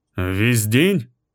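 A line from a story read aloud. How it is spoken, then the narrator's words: Muffled female voice. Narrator (Russian): ее голос звучал глухо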